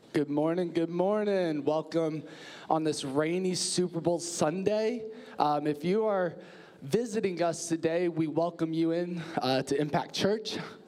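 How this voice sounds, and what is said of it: Impaired voice, not fully recovered. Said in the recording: “my voice isn't that much better from my surgery ... I still haven't quite got my voice back”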